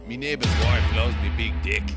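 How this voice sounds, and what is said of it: Put-on Australian accent. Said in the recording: “said in the uh, the Australian accent.”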